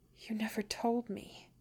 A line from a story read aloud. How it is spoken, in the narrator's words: Bilbo whispers, an angry glint to his words